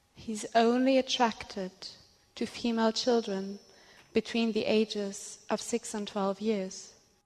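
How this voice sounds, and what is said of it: Accented, slow cadence speech. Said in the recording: “why is she talking like this? ... that's her accent. ... the cadence is very. ... Pick it up, sweetheart.”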